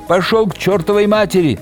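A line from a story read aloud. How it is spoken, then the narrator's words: Furious yell. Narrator (Russian): заорала она яростно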